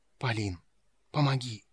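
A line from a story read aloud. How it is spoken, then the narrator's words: Whisper from behind curtain. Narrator (Russian): Шепот доносился из-за занавеса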